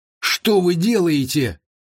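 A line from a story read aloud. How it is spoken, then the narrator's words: Shrill squeal. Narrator (Russian): взвизгнул Ли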